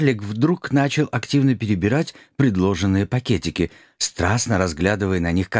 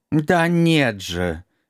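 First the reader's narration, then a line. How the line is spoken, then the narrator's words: Near howl of exasperation. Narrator (Russian): едва не взвыл Валера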